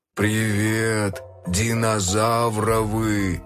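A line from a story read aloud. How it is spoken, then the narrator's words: Good-natured drawl. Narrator (Russian): добродушно протянул Бронхи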